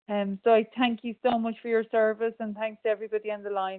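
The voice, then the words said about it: Speaks with a noticeable accent. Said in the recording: “What a lovely accent.”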